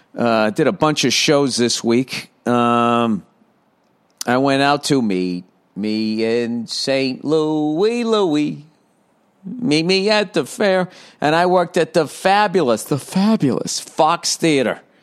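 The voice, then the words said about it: Rough, hoarse voice. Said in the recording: “My voice is a little, I tell you, it's a little rough there”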